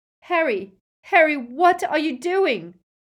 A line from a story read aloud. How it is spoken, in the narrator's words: cried Hermione